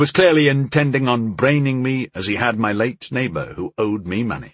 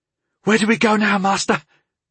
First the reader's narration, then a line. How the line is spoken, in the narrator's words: Tyndall asked, looking around frantically with dazed eyes